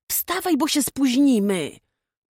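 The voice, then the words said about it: Whispering. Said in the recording (Polish): “szeptała mu prosto do ucha”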